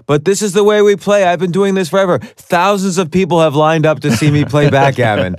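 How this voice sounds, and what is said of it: Imitates another person's voice. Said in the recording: “That was my Trump impression ... especially with the hand motion ... Trump-like”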